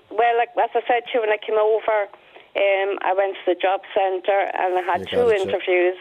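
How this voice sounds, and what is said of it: Dublin accent with Scottish touch. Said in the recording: “your Dublin accent... your Dublin accent is gone... I hear a good touch of Scottish”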